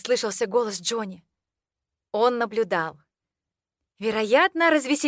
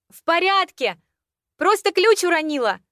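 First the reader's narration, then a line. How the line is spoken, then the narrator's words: Panicked shout. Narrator (Russian): Закричала я в ответ с бешено колотящимся сердцем и паническими нотками в голосе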